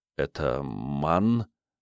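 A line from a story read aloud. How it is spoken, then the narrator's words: Uncertain question. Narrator (Russian): неуверенно спросил Ник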